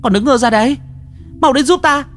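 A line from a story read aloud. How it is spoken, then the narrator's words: Shouting. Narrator (Vietnamese): Lan Anh hét lên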